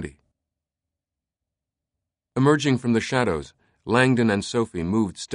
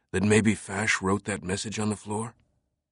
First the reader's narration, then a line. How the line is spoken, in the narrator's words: he whispered